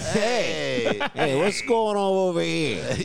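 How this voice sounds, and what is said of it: Put-on New Yorker accent. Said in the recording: “Do him as a New Yorker. ... Just it'd do it as a New Yorker.”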